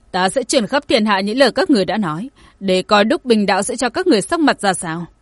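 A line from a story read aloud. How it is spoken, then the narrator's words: Angry. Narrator (Vietnamese): Nhật Nguyệt tức giận nói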